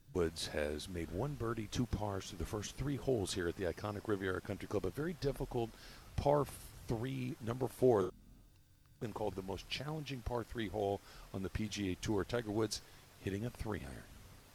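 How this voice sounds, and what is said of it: Golf announcer voice. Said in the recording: “golf announcer voice ... That was good.”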